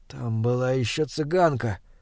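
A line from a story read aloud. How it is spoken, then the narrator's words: Weak voice. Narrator (Russian): слабым голосом проговорил Берн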